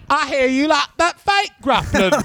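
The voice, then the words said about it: Convincing put-on English accent. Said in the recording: “That was a spot on English accent.”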